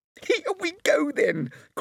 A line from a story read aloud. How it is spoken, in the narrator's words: cried George